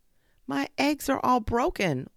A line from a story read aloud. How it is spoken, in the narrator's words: wailed the bush fowl